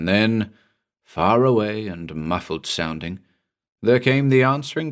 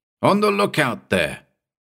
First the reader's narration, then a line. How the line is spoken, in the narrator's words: he shouted